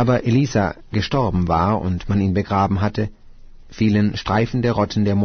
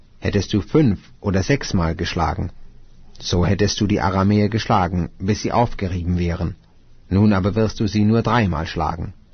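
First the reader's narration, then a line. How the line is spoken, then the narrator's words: Angry speech. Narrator (German): wurde der Mann Gottes zornig auf ihn und sprach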